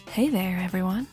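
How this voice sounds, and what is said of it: Whispering, quiet radio voice. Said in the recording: “The whispering didn't help at all. ... That was my bad radio voice.”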